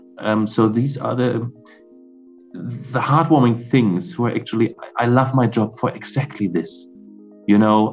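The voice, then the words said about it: Emotional, choked-up voice. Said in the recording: “I'm getting a little emotional”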